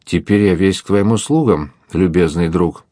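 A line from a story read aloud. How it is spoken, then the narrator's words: Plain. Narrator (Russian): сказал он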